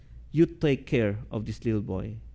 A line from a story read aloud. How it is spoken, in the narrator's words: said gently to the mother